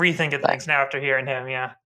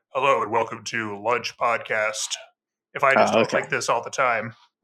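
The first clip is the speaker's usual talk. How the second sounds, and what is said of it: Deliberately lowered podcast-host voice. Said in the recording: “we don't really do a podcasting voice ... It's just like a lower voice”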